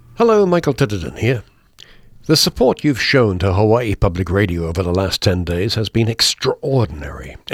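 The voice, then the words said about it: Distinctive British accent, theatrical delivery. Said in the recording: “certainly distinctive British accent, of course, bit of theater in there as well, and a good deal of passion always”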